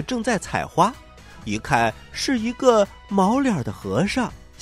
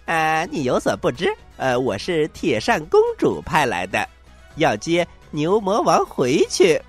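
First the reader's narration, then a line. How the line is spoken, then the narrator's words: Grinning cheerfully. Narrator (Chinese): 悟空笑嘻嘻地说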